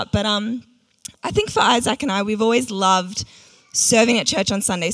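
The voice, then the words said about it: Strained, nearly lost voice. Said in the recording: “My voice is like on the verge of going”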